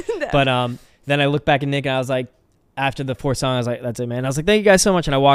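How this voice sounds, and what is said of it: Usual voice. Nothing is said of it.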